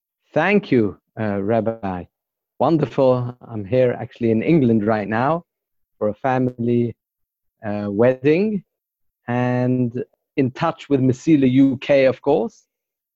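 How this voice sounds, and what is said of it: British accent. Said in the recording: “your accent does sound British.”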